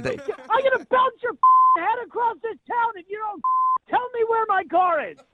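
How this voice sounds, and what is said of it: Loud, shouting voice. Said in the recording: “Not a very good inside voice”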